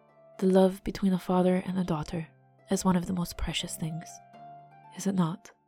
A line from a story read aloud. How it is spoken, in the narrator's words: Felicita murmured to Lord Oryl